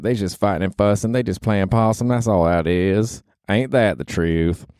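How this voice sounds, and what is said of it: Put-on Southern accent. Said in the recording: “I'm talking in a southern accent, but sometimes I like to slip into a southern accent.”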